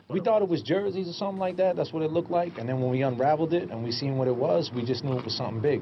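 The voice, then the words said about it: Strong Boston accent. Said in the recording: “Oh, the accent? ... Typical Boston goons. ... Boston guys.”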